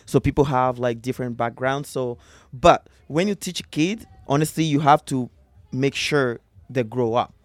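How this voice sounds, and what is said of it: West African Malian French-influenced accent. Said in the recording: “I hear an accent. Where's this accent from? ... This accent is from Africa, Mali. ... French”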